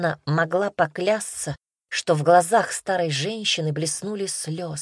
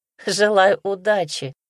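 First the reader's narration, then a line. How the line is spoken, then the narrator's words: Laughing. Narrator (Russian): засмеялась Ивка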